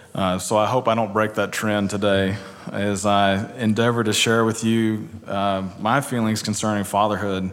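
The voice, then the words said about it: Light East Texas twang. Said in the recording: “I'm originally from East Texas... you probably wondered where the twang was from... It has lessened some, but it's not completely gone.”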